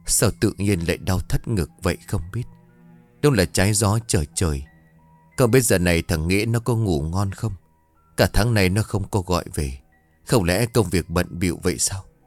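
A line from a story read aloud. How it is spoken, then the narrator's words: Soft muttering old woman. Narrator (Vietnamese): Bà khẽ lẩm bẩm một mình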